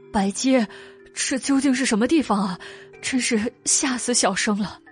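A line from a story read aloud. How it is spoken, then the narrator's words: Frightened, whining. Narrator (Chinese): 哭丧着脸道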